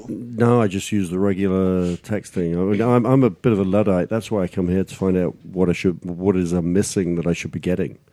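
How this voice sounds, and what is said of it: English accent. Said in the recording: “You can tell by that accent. ... No, England.”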